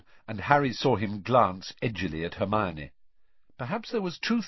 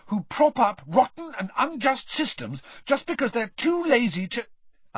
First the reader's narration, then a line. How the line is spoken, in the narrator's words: Hermione began hotly